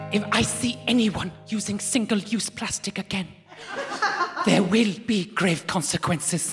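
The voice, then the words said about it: Imitates another person's voice. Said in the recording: “This is my Greta impression. I've been working on it for 3 days.”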